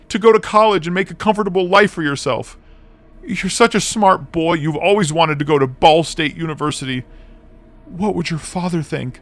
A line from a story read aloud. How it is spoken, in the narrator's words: He snarled